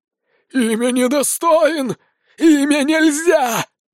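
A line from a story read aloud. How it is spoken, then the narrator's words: Hissing, rasping vampires. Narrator (Russian): Шипят и хрипят Фелисы-вампиры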